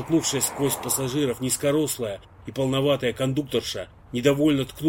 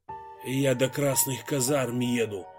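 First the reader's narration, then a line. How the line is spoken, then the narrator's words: Quiet reply. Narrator (Russian): негромко ответил Иван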